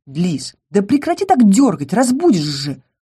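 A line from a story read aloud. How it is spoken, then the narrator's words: Hiss. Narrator (Russian): прошипел Ингар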